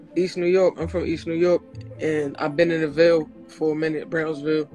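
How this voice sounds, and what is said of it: Brooklyn New York accent. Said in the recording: “I definitely hear Brooklyn in you ... I hear New York”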